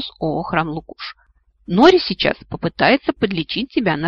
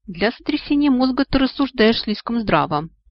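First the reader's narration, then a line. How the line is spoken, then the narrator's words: Relieved sigh. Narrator (Russian): облеченно вздохнул Нори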